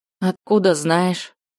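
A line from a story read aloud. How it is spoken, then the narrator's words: Breathless exhale. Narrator (Russian): Выдохнула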